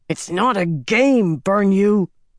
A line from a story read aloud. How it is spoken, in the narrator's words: Jorgen snarled